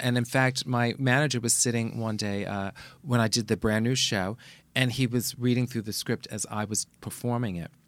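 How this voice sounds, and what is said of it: Bronx accent. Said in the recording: “I make mistakes with my English and the Bronx accent”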